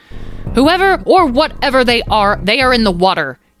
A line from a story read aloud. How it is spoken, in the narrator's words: he shouted